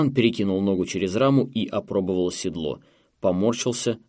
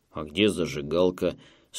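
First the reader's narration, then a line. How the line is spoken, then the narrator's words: Grumble again. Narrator (Russian): снова проворчал Клод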